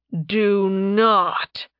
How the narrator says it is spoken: Tarbin growled at Nerevia

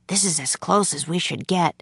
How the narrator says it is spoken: he whispered

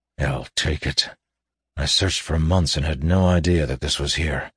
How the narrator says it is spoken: he said ruefully, keeping his voice low

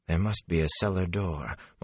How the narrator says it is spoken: Moraine muttered

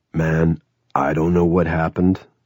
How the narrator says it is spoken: Twitch said

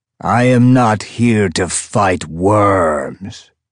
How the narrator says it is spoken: Prof bellowed, his voice echoing through the stadium, blasted from speakers we'd set up

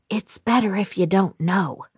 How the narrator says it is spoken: I whispered

